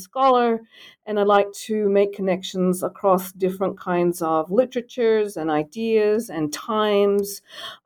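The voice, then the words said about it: Australian accent. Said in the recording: “identify my accent ... the accent, you know, for being from Australia”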